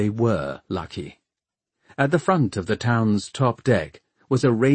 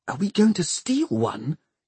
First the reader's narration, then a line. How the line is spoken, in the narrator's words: Tom whispered